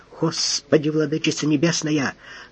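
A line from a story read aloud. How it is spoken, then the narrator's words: Mumbling. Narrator (Russian): Евстратий Павлович вывалился, бормоча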